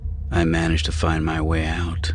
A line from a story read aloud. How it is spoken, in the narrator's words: he answered, his voice grimmer than he intended